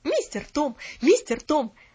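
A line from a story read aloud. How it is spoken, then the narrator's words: Shouted. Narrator (Russian): кричала она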